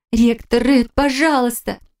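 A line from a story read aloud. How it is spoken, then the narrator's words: Shout, voice breaking. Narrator (Russian): крикнула я так, что мой голос сорвался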